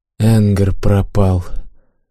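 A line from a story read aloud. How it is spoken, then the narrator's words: Breathless exhale. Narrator (Russian): выдохнул научник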